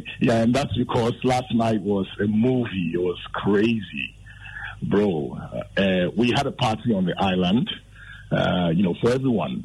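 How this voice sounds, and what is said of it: Slightly hoarse, strained voice. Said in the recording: “I'm sure you can tell that I've lost my voice a little bit.”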